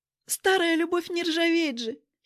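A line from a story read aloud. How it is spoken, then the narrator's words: Giggling. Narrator (Russian): хихикнула Ритка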